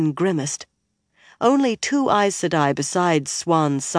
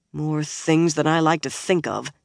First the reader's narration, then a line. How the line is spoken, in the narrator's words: Swan said grimly